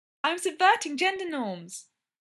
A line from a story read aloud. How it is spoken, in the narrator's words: Brendan chirped brightly